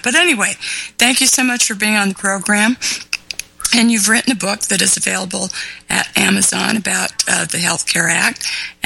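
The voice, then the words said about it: Hoarse, throaty voice. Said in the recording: “I've got a frog in my throat,”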